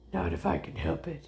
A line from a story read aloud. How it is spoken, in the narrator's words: Ace growled